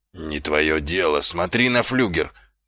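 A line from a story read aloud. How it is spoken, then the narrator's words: Hoarse wheeze. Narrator (Russian): прохрипел сержант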